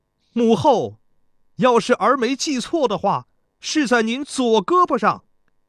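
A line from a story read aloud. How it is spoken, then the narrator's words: Loud voice. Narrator (Chinese): 贾公子高声说道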